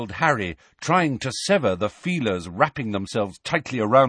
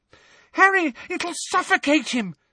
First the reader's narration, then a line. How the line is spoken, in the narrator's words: screamed Ginny, immobilised by her broken ankle